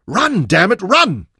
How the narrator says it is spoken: he shouted at Manyoro

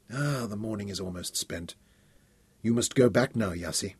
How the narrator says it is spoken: He murmured regretfully

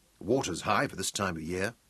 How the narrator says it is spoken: Mark muttered aloud

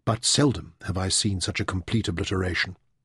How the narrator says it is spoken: Demeter said softly

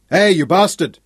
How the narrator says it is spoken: shouted

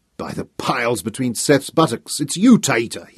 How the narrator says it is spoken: he roared

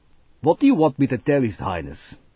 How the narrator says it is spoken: Scrowder asked scornfully

